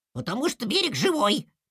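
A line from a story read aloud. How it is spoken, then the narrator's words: Small child's squeak. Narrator (Russian): пискнул малыш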